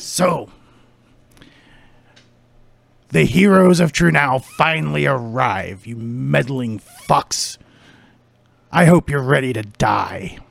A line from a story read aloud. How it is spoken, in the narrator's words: he growls for a moment, and then he says